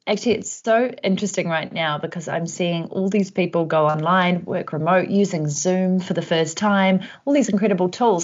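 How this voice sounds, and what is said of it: New Zealand accent. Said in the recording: “if you can hear an accent, that's because I'm from New Zealand”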